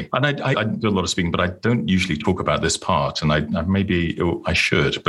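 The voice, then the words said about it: British accent. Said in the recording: “obviously, my accent, I'm not a native. I was born and grew up in the UK.”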